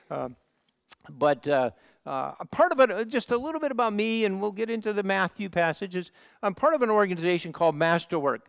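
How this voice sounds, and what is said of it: Nasal American Midwestern accent. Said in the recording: “a bit of a Midwestern accent, a bit of a nasal accent”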